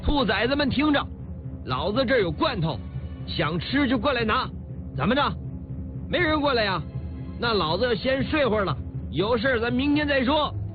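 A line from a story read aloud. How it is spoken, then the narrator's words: Gloating shout. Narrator (Chinese): 小陈逮住便宜便卖乖，向土匪们喊话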